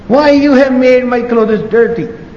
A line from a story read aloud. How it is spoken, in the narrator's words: The woman she started shouting